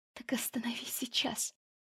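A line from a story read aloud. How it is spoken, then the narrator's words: Whisper. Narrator (Russian): прошептала я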